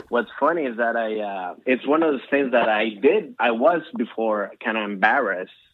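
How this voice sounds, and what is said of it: Latino-accented English. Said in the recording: “this is my accent. This is just who I am. You know, a lot of times Latinos come from other parts of the world”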